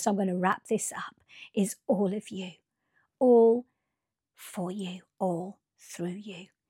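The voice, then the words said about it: Hoarse, strained, fading voice. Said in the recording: “I'm losing my voice now”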